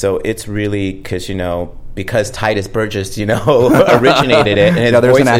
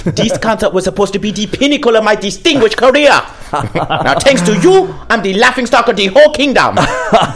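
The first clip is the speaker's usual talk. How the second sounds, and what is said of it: Light put-on Jamaican accent. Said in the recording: “you have to use a Jamaican accent at the same time. But it has to be enough, but not too much ... So you kind of have to fudge it a little bit of English, a little bit of accent”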